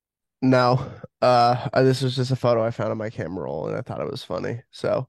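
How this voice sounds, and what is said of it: Rough, sick-sounding voice. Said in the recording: “my voice sounds a little rough. I'm under the weather right now.”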